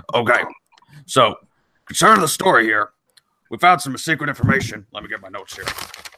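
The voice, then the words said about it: Imitates another person's voice. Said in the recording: “my Alex Jones impersonation”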